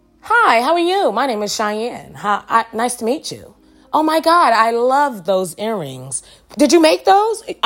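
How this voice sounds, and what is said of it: Put-on polished, proper-sounding voice. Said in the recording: “put on my clear people voice”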